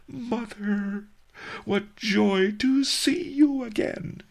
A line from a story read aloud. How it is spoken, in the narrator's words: sobbed